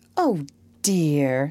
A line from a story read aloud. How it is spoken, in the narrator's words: sighed Amy